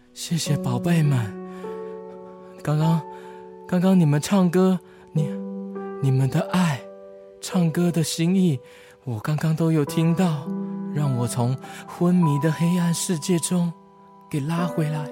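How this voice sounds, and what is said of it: Very weak, feeble voice. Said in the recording (Chinese): “用很虚弱的声音说”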